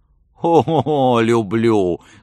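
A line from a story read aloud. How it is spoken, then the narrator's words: Laughing. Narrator (Russian): засмеялся Готхольд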